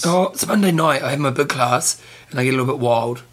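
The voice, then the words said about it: Strained, hoarse voice. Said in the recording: “Oh, I'm losing my voice”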